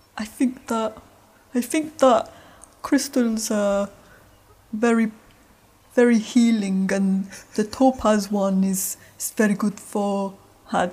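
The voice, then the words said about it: Imitates sister's voice, yawny accent. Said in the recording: “do an impression of Emma now ... she sounds a bit like my dad ... it's like halfway from your mum to your dad because your dad's got that kind of yawny, like,”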